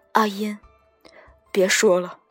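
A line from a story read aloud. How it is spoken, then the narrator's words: Choked, tearful. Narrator (Chinese): 黎静哽咽道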